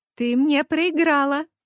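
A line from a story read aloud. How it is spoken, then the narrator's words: Joyful shout. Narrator (Russian): Радостно прокричала моя давняя подружка Лиска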